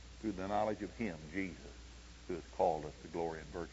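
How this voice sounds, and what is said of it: Oklahoma accent. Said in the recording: “accent's not bothering you, is it? This Oklahoma accent?”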